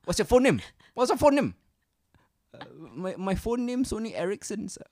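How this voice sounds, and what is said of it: Put-on foreign accent. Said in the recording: “do the accent, and do the line again”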